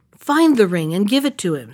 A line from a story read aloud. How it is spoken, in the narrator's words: said the princess